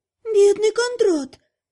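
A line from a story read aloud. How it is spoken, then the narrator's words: Sorrowful sigh. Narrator (Russian): горестно вздохнула Лана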